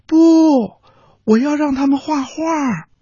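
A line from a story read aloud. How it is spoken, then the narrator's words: Loud reply. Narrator (Chinese): 小驴大声的回答说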